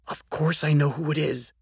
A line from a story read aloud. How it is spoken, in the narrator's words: Georgie whispered back